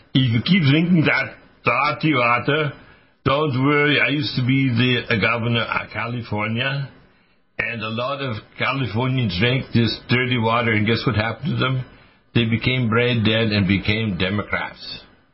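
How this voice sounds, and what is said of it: Arnold Schwarzenegger impression accent. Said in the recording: “using my Arnold accent”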